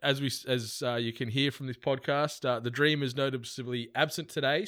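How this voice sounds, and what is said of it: Tired, slightly raspy voice. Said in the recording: “A little bit tired, a little bit raspy. I'm still on the back end of this flu”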